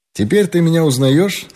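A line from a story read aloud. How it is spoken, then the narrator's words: Mocking question. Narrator (Russian): спросил он насмешливо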